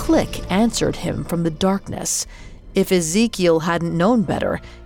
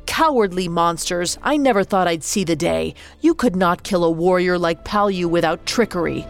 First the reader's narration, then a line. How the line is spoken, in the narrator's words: Suddenly, shouted